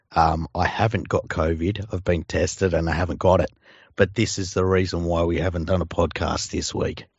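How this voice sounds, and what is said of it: Very hoarse, sick-sounding voice. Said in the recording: “I might be dying. as anyone can hear, my voice is absolutely fucked.”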